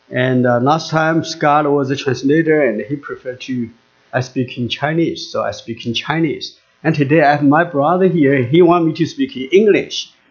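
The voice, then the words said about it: English with a Chinese accent. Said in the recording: “So I have to speak again in English with a Chinese accent.”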